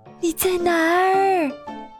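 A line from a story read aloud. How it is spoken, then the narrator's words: Shouting. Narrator (Chinese): 他喊道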